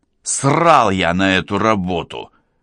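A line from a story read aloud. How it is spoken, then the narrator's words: Angry bark. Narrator (Russian): рявкнул водитель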